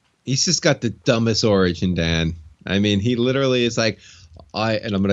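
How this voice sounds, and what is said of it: Usual voice. Nothing is said of it.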